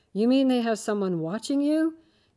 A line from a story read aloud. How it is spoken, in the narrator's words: His voice rose in surprise